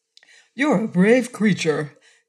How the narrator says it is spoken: cried the wizard admiringly

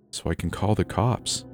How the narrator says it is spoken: said softly

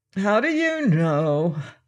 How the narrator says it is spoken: continued the chamberlain, yawning again

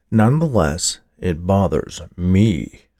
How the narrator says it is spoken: drawled the official, his voice falling down in pitch, the emphasis on me

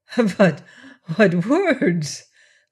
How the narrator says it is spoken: laughed Levasseur

